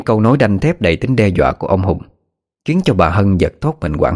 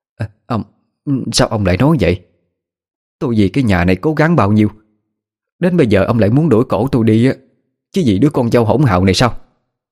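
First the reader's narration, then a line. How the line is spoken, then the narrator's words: Stammering, distressed. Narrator (Vietnamese): Miệng bà lắp bắp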